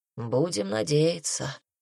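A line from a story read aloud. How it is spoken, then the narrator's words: Doubtful mumble. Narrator (Russian): пробормотал целитель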